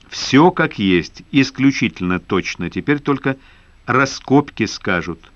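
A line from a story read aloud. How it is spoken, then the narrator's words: Plain. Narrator (Russian): ответил народный академик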